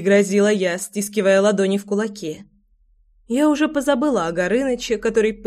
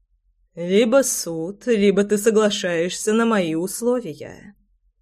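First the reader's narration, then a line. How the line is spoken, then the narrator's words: Purring. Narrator (Russian): мурлыкал непробиваемый идиот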